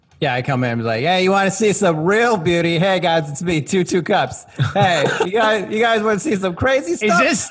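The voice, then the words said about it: Character voice like Dennis Miller. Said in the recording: “doing an impression of Dennis Miller”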